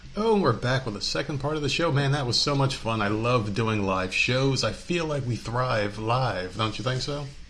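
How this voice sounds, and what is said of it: Exaggerated radio announcer voice. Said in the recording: “This is the radio voice coming back from the old SoundCloud days.”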